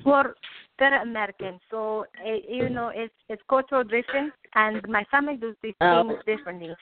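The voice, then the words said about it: Non-native English accent. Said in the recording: “sometimes I don't know with my accent that it can't really understand what I'm saying”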